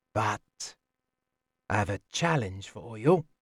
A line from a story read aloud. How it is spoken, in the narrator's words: to say softly